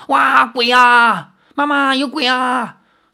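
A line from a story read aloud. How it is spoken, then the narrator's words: Children screaming in terror. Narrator (Chinese): 吓得那几名孩童尖叫着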